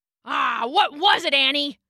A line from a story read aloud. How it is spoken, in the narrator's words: growled Rambo